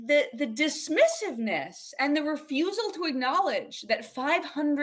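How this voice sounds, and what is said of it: Usual voice. Nothing is said of it.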